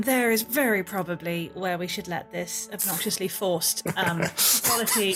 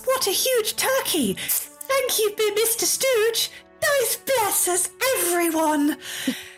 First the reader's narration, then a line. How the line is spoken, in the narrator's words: the squeaky sound of a small, obnoxiously virtuous little boy shouting out